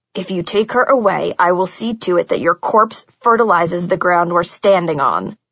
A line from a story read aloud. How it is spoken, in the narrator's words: he said, his voice more venomous than I'd ever heard it